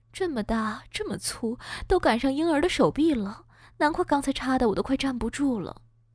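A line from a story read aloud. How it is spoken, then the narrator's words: Exclaiming in wonder. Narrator (Chinese): 岳母再次感叹道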